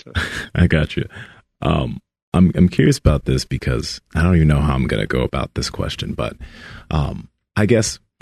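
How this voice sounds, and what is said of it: Deep radio-quality voice. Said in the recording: “you should be on the radio ... You're like James Earl Jones ... That voice, right?”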